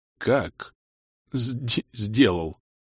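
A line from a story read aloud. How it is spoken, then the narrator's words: Stunned stammering mutter. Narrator (Russian): потеряв дар речи, с запинкой пробормотал Бенгальд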